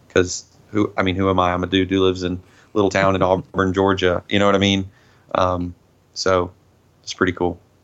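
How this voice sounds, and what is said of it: Southern American accent. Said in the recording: “you can't deny that accent. ... Southern people sound”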